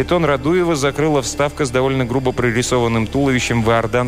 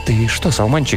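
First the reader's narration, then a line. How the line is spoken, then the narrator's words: Quiet question. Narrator (Russian): тихо спросил Березовский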